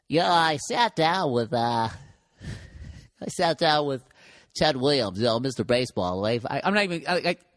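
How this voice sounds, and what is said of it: Imitates another person's voice. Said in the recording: “Tony Gwynn started commentating baseball. And he would be like,”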